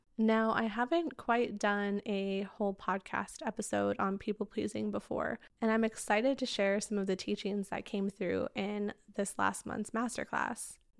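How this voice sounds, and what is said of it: Slightly raspy, recovering voice. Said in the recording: “I am recovering from losing my voice this last month... if I sound a little raspy”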